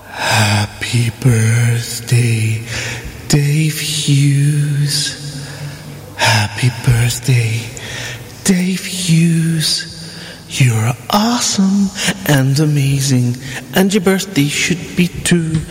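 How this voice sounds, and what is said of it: Sexy voice. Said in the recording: “beautifully sexy voice style”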